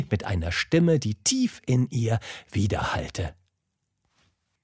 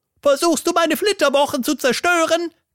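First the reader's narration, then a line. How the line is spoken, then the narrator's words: Shrieked. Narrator (German): kreischte sie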